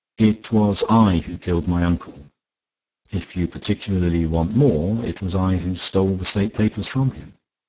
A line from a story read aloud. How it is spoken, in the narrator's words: Vaughan Fisher said calmly